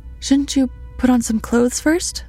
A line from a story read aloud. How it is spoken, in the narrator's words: I blurted